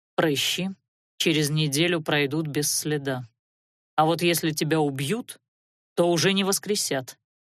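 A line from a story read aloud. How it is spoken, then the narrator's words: Perfectly calm. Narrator (Russian): абсолютно спокойно проговорил Алиорн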